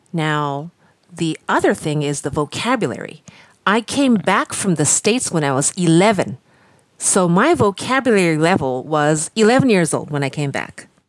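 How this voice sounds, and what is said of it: American accent. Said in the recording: “the accent, I guess. I, I hope it sounds. It is supposed to sound American... very, very American... this accent comes from San Francisco”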